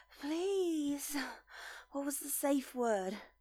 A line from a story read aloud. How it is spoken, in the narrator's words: Carter whimpered out cutely